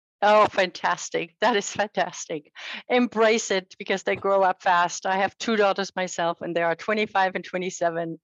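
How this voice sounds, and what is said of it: German accent in English. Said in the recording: “I have an accent because I'm from Germany”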